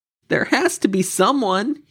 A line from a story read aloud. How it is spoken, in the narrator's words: he cried to the sky